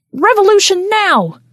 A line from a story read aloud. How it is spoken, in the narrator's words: Someone yelled in the darkness